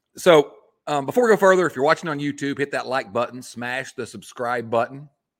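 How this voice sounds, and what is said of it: Sick-sounding, deeper voice. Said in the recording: “I promise my voice will not sound like this every week. You can tell I'm maybe a little under the weather ... in a little bit deeper tone.”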